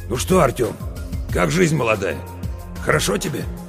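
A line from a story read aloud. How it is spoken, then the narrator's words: Hoarse. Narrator (Russian): а сам так хрипло мне говорит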